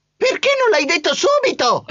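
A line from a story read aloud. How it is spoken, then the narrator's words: Shrieked. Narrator (Italian): strillò Trappola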